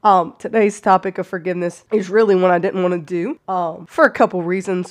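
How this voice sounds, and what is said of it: Hoarse voice, cutting in and out. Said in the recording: “my voice has been going in and out. So if I sound a little hoarsey, I've been sick for like a month.”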